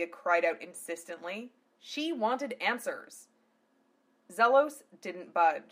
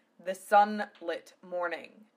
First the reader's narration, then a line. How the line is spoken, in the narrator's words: Milgazia growled